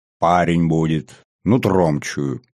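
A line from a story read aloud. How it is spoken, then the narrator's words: Peremptory, attempted firm voice. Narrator (Russian): безапелляционно сообщил Кобрин, как ему казалось, твердым голосом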